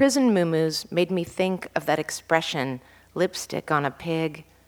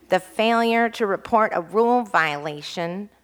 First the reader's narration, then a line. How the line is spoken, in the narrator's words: Conan said in a nasal voice